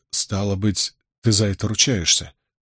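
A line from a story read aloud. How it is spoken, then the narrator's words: Quiet interruption. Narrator (Russian): Тихонько оборвал его Мэтт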